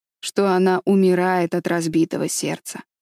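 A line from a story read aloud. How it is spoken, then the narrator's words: Stern reply. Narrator (Russian): строго ответил Адам Клоу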